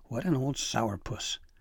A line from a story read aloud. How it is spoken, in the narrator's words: Dabbledee sighed